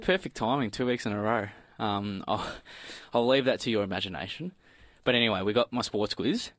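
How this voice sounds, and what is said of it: Out of breath. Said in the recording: “You're a bit out of breath there.”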